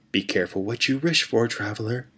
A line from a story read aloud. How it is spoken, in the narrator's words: he whispered as he faded